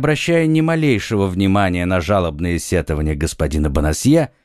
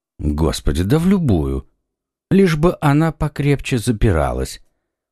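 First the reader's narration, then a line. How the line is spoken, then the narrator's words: Indifferent tone. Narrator (Russian): произнес комиссар безразличным тоном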